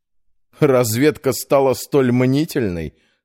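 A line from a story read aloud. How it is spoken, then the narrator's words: Snorting. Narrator (Russian): хмыкнул Петр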